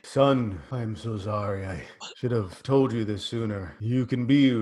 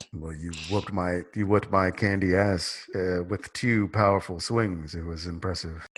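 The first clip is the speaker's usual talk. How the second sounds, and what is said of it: Speaking very slowly. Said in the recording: “Why are you talking so slow?”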